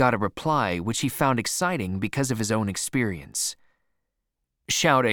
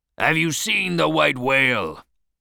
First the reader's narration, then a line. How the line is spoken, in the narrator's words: Ahab shouted once more to a passing ship's captain